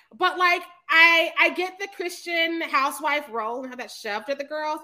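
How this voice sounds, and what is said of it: Loud, yelling voice. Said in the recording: “I feel like I'm yelling. ... I've been drinking. ... this bitch is yelling.”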